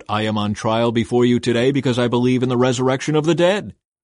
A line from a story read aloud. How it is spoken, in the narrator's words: I shouted out